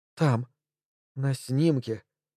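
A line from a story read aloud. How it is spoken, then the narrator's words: Quiet. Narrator (Russian): тихо проговорила она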